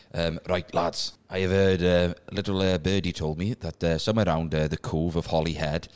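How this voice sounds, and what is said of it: Put-on Welsh accent. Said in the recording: “Could you do it in a Welsh accent, please?”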